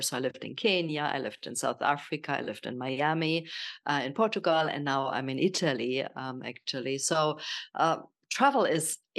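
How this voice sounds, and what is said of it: German accent in English. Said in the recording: “I'm from Germany, as you probably hear from my accent”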